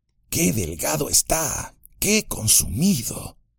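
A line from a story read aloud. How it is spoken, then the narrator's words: Murmuring. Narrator (Spanish): murmuró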